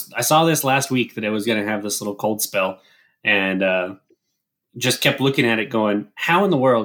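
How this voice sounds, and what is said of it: Scratchy, slightly hoarse voice. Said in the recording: “tell by my voice, um, uh, I'm not quite 100% ... I just have uh, a scratchy little voice here.”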